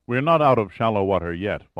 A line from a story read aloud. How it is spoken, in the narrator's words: Fawcett said